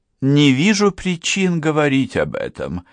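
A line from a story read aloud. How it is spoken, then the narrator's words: Gentle objection. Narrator (Russian): мягко возразила она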